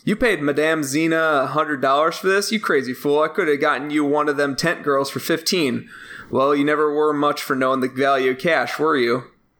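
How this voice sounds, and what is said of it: Convincing put-on Southern US accent. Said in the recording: “your southern accent impeccable... uncanny... I thought someone from Texas wandered in”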